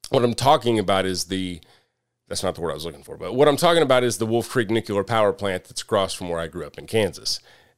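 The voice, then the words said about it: Southern American accent. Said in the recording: “I have a Southern accent, apparently”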